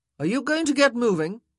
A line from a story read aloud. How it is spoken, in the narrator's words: He called out